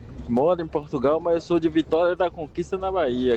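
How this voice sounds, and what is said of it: Mixed Bahian and Minas Brazilian accent. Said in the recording (Portuguese): “o nosso sotaque é meio baianeiro ... não é, tem nada a ver com o de Salvador ... E também não é exatamente o mineiro. Então é a mistura, assim, meio caipira com isso, meio abaianado ... É esse aí o sotaque aí, ó.”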